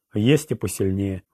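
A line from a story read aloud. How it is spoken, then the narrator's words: Sighing. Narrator (Russian): вздохнул Роланд, вспоминая младшую сестру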